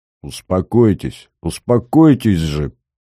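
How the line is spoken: Policeman through gritted teeth. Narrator (Russian): процедил сквозь зубы милиционер

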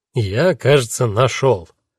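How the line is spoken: Solemn. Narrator (Russian): торжественно произнес

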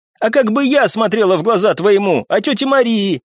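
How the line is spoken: Tearful shouting. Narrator (Russian): прокричала Вика, и по ее щекам вновь покатились крупные слезы

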